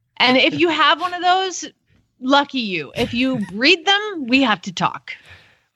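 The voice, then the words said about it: Put-on Southern West Virginia accent. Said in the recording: “your West Virginia accent sounds like a lot like the Georgia one... It sounds a lot like Oklahoma too... It's all Southern.”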